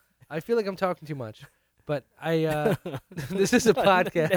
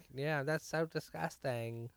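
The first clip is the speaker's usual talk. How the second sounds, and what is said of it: Imitated accent, done well. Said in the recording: “That was good accent. ... That was pretty good.”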